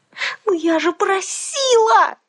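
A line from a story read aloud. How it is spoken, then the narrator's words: Yelling. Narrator (Russian): завопила я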